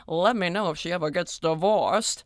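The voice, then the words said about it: Put-on mid-Atlantic accent. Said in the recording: “I gave him a mid-Atlantic accent”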